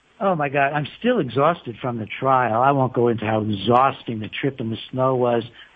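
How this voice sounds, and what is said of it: American accent. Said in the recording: “My American accent.”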